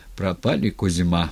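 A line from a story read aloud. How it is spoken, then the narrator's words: Quiet. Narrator (Russian): негромко сказал Скрипицын своему товарищу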